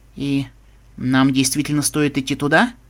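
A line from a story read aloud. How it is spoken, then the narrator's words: Uncertain. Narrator (Russian): неуверенно проговорил Строк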